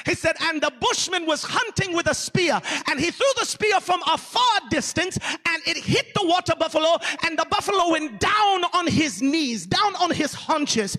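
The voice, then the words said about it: Put-on strong African accent. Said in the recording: “I'm not good at impersonations ... preaching with that strong African accent. I'm going to try it ... it goes better in African accent than it does just regular American Southern”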